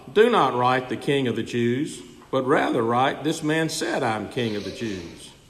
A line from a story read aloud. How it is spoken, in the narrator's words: Pilate answered